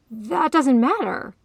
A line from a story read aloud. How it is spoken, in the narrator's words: he insisted wildly